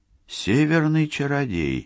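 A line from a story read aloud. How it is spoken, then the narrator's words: Mutter. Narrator (Russian): пробормотала Сакс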